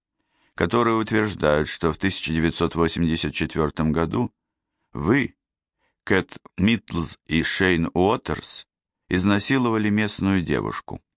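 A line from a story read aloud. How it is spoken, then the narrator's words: Indifferent tone. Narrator (Russian): произнес я безразличным тоном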